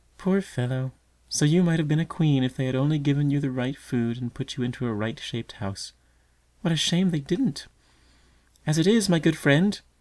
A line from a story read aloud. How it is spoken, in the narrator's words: her voice took a childish, mocking tone